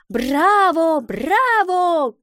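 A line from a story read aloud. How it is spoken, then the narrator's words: Crowd shouting. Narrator (Russian): кричали зрители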